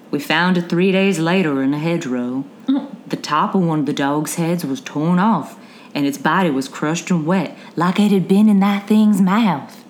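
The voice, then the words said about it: Put-on general Southern accent. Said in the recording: “back into Johnny Voss's voice ... my general southern accent ... That was good, dude.”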